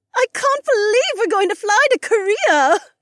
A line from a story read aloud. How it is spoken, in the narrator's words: Becca squealed